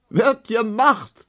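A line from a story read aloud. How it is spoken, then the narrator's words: Laughing. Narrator (German): lachte die lange Emma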